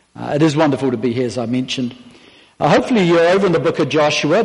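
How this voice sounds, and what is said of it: Speaks with a noticeable accent. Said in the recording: “I do have the accent”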